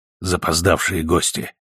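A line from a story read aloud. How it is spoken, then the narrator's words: Whisper. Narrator (Russian): шепнул Миллер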